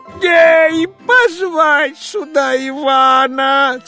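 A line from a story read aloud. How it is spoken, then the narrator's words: Hurried shout. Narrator (Russian): царь поспешно закричал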